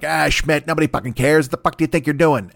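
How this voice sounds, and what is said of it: Imitates another person's voice. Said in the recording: “Why does J. Jonah Jameson sound like my buddy Jimmy O? ... That impression, I got to work on that impression”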